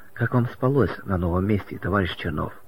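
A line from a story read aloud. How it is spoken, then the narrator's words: Deep sigh, forced tender question. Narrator (Russian): Маргарита глубоко вздохнула и, стараясь улыбнуться, как можно ласковее спросила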